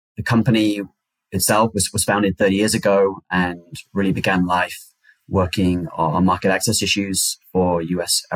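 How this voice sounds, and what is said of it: British accent. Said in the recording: “the accent kind of belies where I'm from. I'm originally from the United Kingdom”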